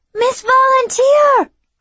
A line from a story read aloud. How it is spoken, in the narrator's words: cried out Derek